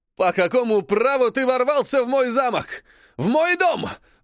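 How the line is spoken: Prince yelling. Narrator (Russian): вопит принц

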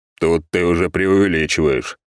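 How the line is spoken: Grumbled. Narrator (Russian): проворчал я

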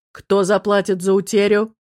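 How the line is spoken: Loud, menacing. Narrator (Russian): Лодочник спросил громко и грозно

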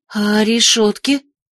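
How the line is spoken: Frightened question. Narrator (Russian): испуганно спросила Виола

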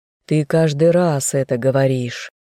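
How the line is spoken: Weary sigh. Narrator (Russian): устало вздохнул опекун

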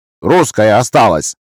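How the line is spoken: Grumbled. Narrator (Russian): буркнула одна из Тамар

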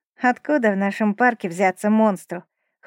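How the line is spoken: Skeptical snort. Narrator (Russian): хмыкнул дрозд рябинник

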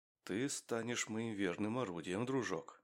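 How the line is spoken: Whispering. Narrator (Russian): прошептал Максим

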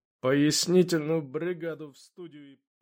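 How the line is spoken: Through gritted teeth. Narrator (Russian): Сделав пару вдохов-выдохов, я процедил

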